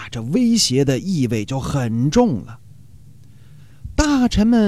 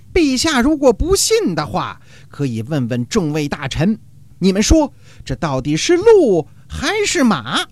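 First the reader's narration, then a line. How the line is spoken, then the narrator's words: Loud. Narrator (Chinese): 大声说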